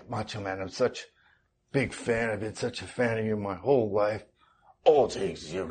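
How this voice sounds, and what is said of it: Bad Macho Man impression. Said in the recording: “doing a terrible Macho Man impression. ... But he talks like that the whole time.”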